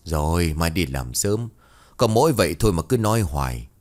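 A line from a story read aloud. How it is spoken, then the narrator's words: Weary sigh. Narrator (Vietnamese): Lão Đoài ... thì thở dài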